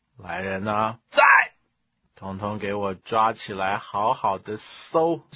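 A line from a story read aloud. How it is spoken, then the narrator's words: Cold. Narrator (Chinese): 司马师冷冷地说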